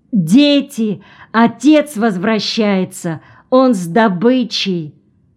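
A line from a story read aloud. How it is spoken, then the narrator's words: Loud announcement. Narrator (Russian): Пыльмау громко объявила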